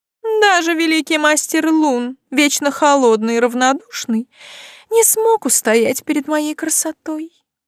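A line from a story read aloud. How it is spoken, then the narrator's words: Flirtatious cooing. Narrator (Russian): проворковала она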